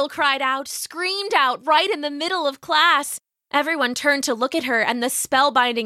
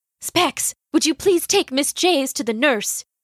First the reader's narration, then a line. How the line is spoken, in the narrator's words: she whispered